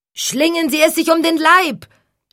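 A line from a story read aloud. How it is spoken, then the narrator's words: Shouting. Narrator (German): schrie Hank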